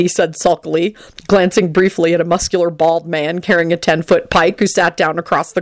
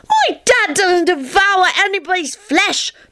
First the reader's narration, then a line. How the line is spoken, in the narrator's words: Teddy shouted